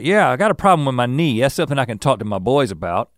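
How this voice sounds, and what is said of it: Put-on Southern US accent. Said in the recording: “I'm characterizing everyone who's ignorant as with a southern accent ... those are the kinds of accents that I do”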